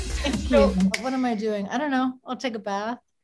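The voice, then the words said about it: British-sounding accent. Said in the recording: “does she have a British accent?”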